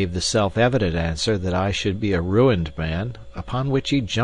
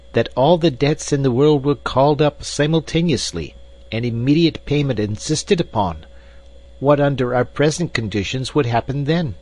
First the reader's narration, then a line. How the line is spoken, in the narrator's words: he cried with feeble violence